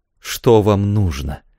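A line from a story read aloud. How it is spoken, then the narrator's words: Plain. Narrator (Russian): сказала она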